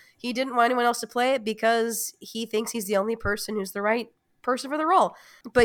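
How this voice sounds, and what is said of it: Usual voice. Nothing is said of it.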